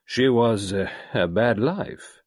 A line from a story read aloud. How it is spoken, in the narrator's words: said Gerard slowly